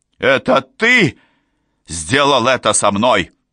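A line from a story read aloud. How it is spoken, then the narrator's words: Shout. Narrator (Russian): Он крикнул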